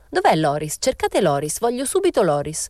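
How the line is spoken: Exclaimed. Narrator (Italian): esclamò

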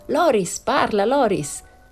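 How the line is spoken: Shouted. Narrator (Italian): gridarono

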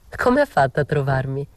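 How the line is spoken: Said laughing. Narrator (Italian): gli dissi ridendo

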